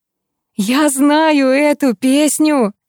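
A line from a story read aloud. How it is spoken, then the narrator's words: Sudden joyful yell. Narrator (Russian): Вдруг радостно заорал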